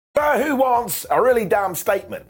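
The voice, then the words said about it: Put-on accent. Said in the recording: “I'm going to stop doing that, I cannot keep the accent up for the whole damn show”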